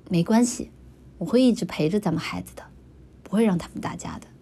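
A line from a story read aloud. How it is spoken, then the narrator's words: Gentle. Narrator (Chinese): 叶凡温柔的说道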